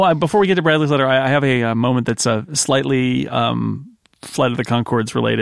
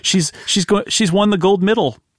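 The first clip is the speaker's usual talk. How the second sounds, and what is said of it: Imitated New Zealand accent. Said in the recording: “that New Zealand accent”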